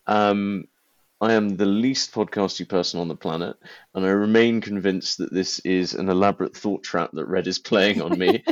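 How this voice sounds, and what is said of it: Pompous, entitled-sounding accent. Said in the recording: “make me sound like even more of a pompous ass than this accent makes me sound ... One very silly person who sounds... Very entitled.”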